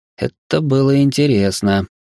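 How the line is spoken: Drawling. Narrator (Russian): протянул я

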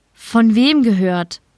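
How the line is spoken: Plain. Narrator (German): fragte Vera

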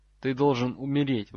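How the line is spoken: Forced out. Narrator (Russian): выдавил Драк

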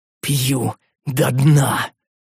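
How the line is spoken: Exhaled words. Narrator (Russian): выдохнул я

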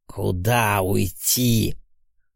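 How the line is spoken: Hissing like viper, demoness. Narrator (Russian): зашипела, словно гадюка демонесса

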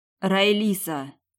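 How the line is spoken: Hoarse wheeze. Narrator (Russian): Просипела

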